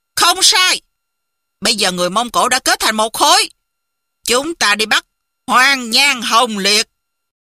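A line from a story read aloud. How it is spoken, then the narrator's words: Loud shout. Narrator (Vietnamese): Thành Các Tư Hãn quát lớn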